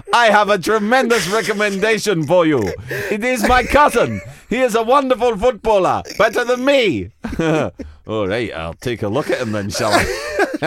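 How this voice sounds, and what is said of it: Bad comedy African accent. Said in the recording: “doing a bad comedy African accent”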